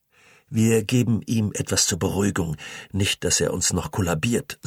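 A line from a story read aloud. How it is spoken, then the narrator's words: Plain. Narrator (German): sagte der 2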